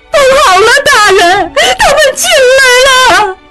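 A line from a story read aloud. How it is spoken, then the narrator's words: Old servant crying. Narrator (Chinese): 一个老妈子哭道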